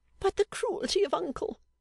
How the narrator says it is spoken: cried Miss Fanny

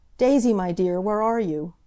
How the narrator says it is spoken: he called out in a wailing voice

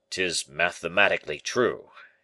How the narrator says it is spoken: exclaimed Baisemeaux

